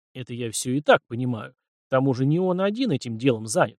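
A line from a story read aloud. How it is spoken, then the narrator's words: Snort. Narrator (Russian): хмыкнул Елисей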